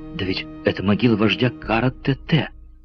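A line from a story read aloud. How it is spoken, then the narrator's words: Exclaiming. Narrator (Russian): воскликнул Роберт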